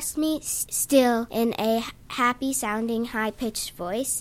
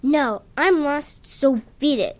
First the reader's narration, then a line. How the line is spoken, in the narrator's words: I said in my rough voice